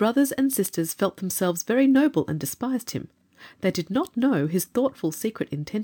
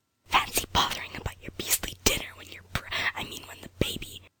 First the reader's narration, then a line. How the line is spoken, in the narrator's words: Jane whispered hotly